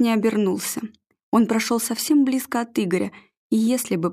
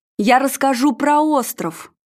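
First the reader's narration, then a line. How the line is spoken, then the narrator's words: Shouted. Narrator (Russian): выкрикнул конюх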